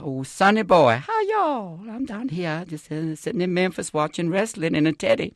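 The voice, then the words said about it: Imitation of his Southern grandmother. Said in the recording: “I could play my grandmother ... Be very careful when you imitate the relatives who are nearby. And I would do my grandmother”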